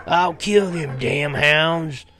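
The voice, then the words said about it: Loud, shouting character line. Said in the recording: “said in a loud voice”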